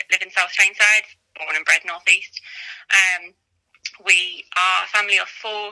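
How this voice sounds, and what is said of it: Northeast English accent. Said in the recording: “as you can probably tell from my accent, I'm in the northeast”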